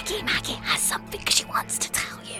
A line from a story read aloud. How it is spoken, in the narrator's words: the girl whispered